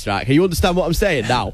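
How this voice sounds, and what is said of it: Put-on northern English accent. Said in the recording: “Give us the north of England accent ... in north, it sounded a bit like this ... Not that well.”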